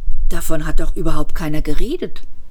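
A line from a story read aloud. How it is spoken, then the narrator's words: Nervous murmur. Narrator (German): murmelte Asa nervös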